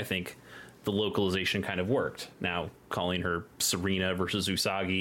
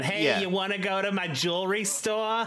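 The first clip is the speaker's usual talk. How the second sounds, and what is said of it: Exaggerated New Jersey accent. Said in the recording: “the most New Jersey-est accent”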